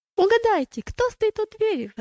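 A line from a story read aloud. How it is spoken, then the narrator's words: Exclaiming. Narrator (Russian): воскликнула она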